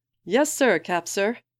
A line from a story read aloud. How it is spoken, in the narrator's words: grins and shouts back